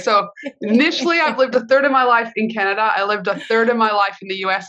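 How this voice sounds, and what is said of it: Mixed Australian-North American accent. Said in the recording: “I love your accent. I love an Australian. ... this kind of mixture accent”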